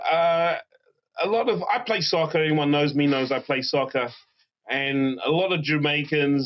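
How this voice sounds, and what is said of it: English accent. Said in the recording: “your wonderful accent”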